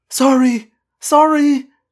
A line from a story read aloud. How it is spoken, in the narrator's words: she cried